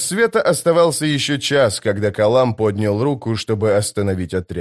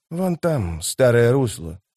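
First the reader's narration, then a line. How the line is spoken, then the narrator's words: Whispering. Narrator (Russian): прошептал он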